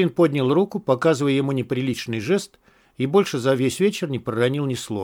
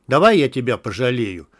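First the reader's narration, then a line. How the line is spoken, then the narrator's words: Rough. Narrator (Russian): грубо сказал Мякиш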